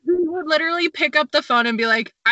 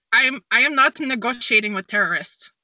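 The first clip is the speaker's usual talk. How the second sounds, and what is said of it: Bad attempt at a Polish accent. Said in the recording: “That is the worst Polish accent I've ever heard in my life. That wasn't even Polish. That was, like, Brazilian.”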